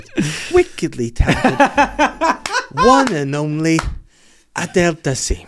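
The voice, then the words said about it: John Travolta impression. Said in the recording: “That's your best impression today. The way you said wickedly talented was exactly the way he did it.”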